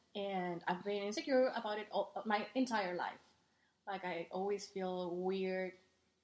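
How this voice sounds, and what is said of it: Strong Mexican accent. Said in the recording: “I have a very, very Mexican accent”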